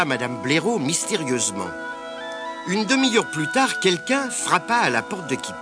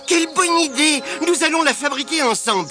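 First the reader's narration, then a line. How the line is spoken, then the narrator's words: Very enthusiastic exclamation. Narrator (French): s'écria Kipik, très enthousiaste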